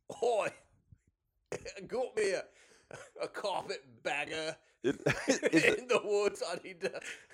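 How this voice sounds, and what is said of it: Bad put-on South London, Aussie-ish accent. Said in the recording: “This is still the wrong accent ... a really bad, like, Bad News Barrett accent ... I was like going for South London. Aussie-ish.”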